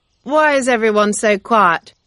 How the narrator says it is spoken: said loudly

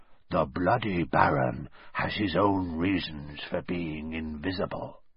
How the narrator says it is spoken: he said in a hoarse whisper

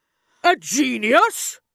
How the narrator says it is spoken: she shouted

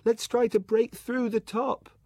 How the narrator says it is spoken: Tossed round like a leaf, he shouted

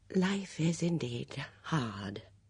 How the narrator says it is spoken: she murmured

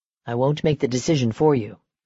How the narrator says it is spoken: Damon said

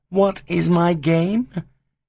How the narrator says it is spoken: His voice became reproachful again

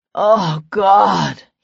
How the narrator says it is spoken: he breathed

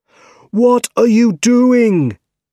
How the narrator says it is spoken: shouted Otto

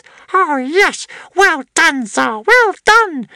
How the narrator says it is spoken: squealed Squeezejuice excitedly

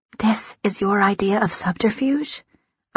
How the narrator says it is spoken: I whisper, trying not to laugh

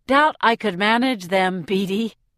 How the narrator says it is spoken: I laugh

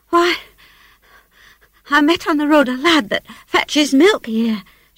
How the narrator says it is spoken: stammered

